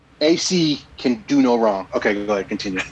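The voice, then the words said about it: Imitates another person's voice. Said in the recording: “That was my awesome impression.”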